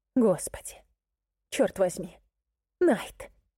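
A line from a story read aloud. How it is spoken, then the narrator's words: Hoarse excited laugh. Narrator (Russian): Хриплый и возбужденный смешок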